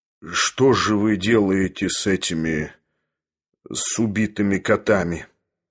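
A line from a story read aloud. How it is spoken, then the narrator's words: Dull, mechanical question. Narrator (Russian): спросил глухо и автоматически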